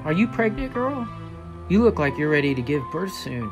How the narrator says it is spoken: murmured

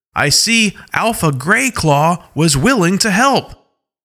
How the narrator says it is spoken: Alpha Paw shouts a little louder

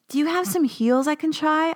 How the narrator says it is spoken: called out

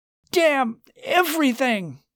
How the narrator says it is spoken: Charles shouted

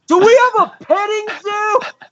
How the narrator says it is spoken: whoever's at the front desk or whatever has to like turn around and scream into the abyss of the restaurant

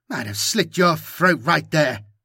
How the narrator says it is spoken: Camanio gasps, working hard

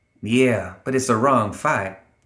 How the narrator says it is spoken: Ophelia sighed

